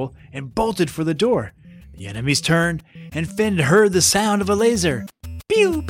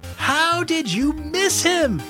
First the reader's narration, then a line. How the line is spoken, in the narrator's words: Abigail yell behind him